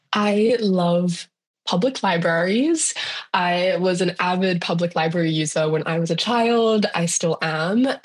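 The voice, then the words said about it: Australian accent. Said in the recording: “if you can't tell by my accent, I'm from Australia”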